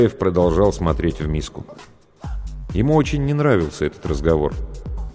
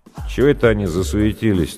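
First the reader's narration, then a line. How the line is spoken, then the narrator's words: Lazy surprise. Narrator (Russian): так лениво удивился Гуляев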